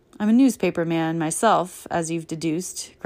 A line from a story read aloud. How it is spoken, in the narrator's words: grunted Turner